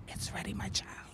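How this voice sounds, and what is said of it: Whispered line. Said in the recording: “Do the whisper one more time.”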